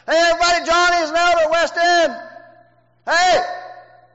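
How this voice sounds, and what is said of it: Shouting. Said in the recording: “Why am I shouting”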